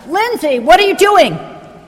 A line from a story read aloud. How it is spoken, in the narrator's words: chef would yell out in the middle of the dinner rush